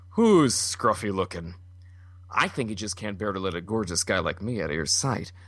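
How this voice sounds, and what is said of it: Haggard Harrison Ford Han Solo impression. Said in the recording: “Harrison Ford is sort of... I'm trying to think of an Indiana Jones or Han Solo line... that's also very Jeff Goldblum-y. All my voices are going to sound very haggard right now.”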